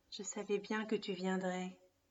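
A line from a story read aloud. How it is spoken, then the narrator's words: Said with a sigh. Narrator (French): dit-elle avec un soupir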